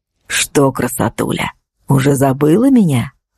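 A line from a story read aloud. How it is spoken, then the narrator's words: Insinuating question. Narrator (Russian): вкрадчиво переспросил водитель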